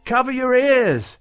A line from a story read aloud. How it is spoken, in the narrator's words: she shouted